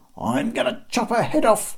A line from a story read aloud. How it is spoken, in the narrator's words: roared Bob